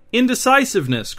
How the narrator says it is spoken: cried Queen Lucia

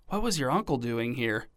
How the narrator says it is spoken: Denver whispered

